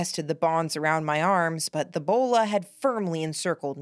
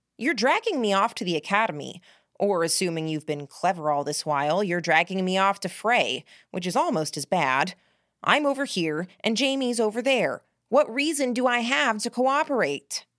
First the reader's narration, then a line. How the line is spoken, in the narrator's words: asked